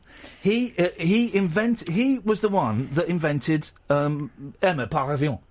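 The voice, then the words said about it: Put-on French accent. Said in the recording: “My French accent is good, no? ... It's beautiful.”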